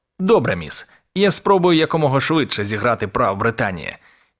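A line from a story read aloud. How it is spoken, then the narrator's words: Cheerful. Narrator (Ukrainian): весело сказав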